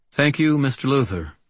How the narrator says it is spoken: the judge said

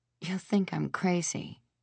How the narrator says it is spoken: I whispered

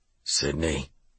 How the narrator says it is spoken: he mumbled

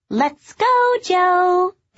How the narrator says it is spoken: they squealed

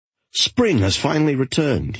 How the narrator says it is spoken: he cried

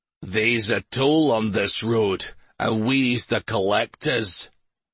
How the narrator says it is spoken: an unkempt man shouted

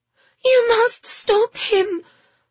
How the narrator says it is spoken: Phoebe gasped, out of breath after their ordeal

